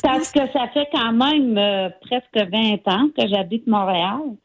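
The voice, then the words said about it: Gaspésie Quebec French accent. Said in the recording (French): “un accent de la Gaspésie ... tu vas entendre tout un accent ... Et mon accent, je ne l'ai pas perdu.”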